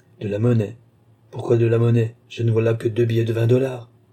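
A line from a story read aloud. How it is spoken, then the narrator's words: Cold. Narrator (French): répondit froidement la doctoresse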